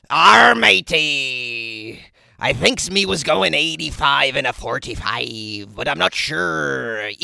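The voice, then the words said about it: Put-on pirate accent. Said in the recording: “It's more of a pirate accent, isn't it? ... When I talk like a pirate ... because I'm speaking like a pirate”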